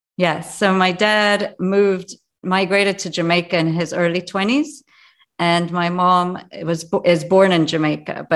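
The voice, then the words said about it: Mixed Jamaican, English and North American accent. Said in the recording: “my accent does represent so many places that I've lived: Jamaica, England, Montreal, New York”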